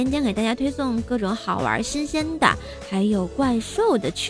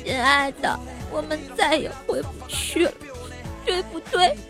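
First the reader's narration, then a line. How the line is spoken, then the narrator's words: Tearful, crying. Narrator (Chinese): 他突然哭了，眼泪汪汪的跟我说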